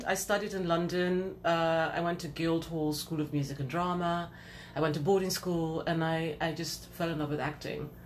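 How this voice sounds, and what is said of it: British accent. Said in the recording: “As you can tell, I have a British accent.”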